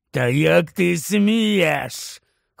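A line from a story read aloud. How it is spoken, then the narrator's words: Hoarse snarl. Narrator (Ukrainian): хрипів, змушений на неї вишкірятися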